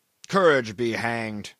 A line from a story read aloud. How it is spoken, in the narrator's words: growled Brierly